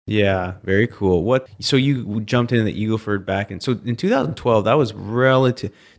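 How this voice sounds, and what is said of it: Canadian accent. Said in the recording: “people with your accent ... had a lot of people from Canada come down.”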